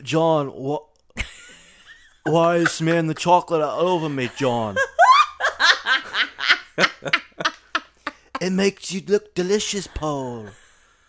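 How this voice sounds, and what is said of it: Put-on British accent. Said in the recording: “Why do you sound like Mike Myers doing Austin Powers? ... Mike Myers did a great British accent as Austin Powers”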